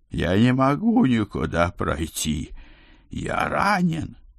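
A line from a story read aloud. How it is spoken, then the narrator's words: Groaning. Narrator (Russian): Моро простонал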